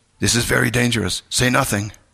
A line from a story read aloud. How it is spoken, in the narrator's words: said in an urgent tone